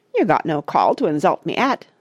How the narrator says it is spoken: said, in a hurt tone of voice

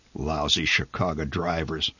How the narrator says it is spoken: The old man muttered

